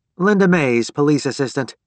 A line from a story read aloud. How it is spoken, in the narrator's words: she said in an officious tone